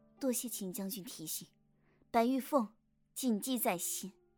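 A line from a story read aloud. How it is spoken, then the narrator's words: Soft, sad. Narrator (Chinese): 心下着实有些伤感，柔声道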